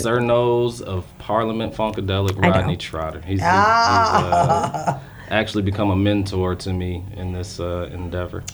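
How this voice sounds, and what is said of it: Resonant, polished radio-style voice. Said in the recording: “He has a great radio voice.”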